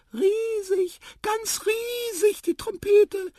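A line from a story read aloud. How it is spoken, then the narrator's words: Squeaky voice. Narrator (German): piepste Tipotip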